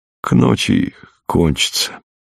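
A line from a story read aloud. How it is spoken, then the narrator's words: Quiet. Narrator (Russian): тихо сказал ей фельдшер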